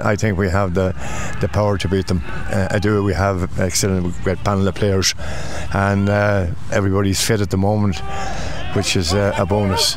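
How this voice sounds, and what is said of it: Irish accent from Louth. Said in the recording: “Where's that accent coming from? ... I'm from Louth originally.”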